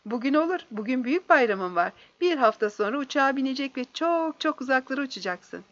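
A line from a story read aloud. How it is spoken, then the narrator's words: Laughing. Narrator (Turkish): Voronov güldü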